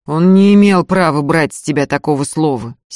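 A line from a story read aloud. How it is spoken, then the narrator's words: Angry. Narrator (Russian): сердито сказал Михаил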